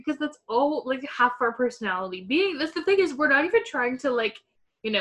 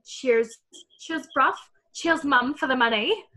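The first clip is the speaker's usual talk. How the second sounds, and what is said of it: Put-on British accent. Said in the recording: “Why do we always do a British accent or anything British related?”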